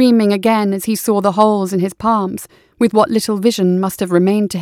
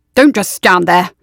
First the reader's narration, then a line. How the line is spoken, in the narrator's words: Willem barked